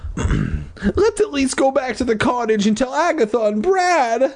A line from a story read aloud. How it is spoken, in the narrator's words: I pleaded